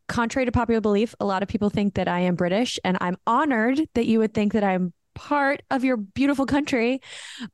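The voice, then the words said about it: American accent. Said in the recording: “your accent is beautiful ... my American accent”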